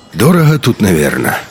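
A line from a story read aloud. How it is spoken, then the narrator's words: Sigh. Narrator (Russian): вздохнул Хохол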